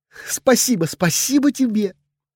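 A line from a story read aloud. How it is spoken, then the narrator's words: Girl gabbling, sobbing between kisses. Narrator (Russian): зачастила девушка, перемежая всхлипывание с жаркими поцелуями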